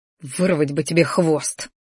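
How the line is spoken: Quiet grumble. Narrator (Russian): пробурчал тихо

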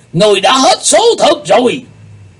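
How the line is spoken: Angry old man. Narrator (Vietnamese): Lão ma đầu giận dữ nói

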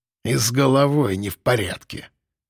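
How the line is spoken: Snide, through gritted teeth. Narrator (Russian): ехидно процедил задержанный

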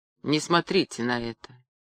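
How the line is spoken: Quiet. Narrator (Russian): негромко сказал Гулливер

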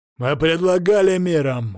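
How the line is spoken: Barked. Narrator (Russian): гаркнул он

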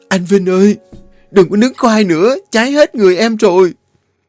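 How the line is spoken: Frightened scream. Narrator (Vietnamese): Nó sợ hãi hét lên

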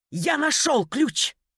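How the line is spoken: Yell. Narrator (Russian): заорал Макс

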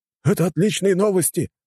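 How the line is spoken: Group exclamation. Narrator (Russian): воскликнули операторы и офицеры

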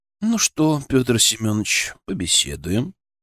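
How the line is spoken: Insinuating, ingratiating. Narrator (Russian): Вкрадчиво начал Удилов

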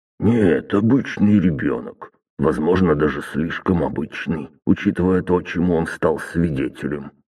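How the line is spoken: Grumbled. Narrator (Russian): буркнул Василий Иванович

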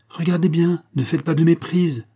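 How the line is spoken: Shouted. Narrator (French): lui cria Shirley

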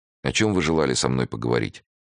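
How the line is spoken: Sighing. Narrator (Russian): Вздохнул

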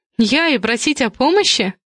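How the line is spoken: Sister snorting. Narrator (Russian): сестра фыркнула

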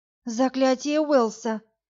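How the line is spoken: Delighted exhale. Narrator (Russian): восторженно выдохнула Варя

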